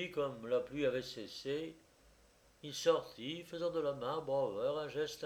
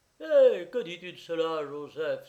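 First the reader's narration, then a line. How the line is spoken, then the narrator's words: Exclaiming. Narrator (French): s'écria-t-il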